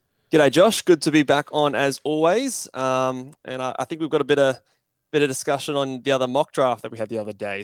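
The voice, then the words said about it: Australian accent. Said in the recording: “two Aussies. So be prepared for the accents.”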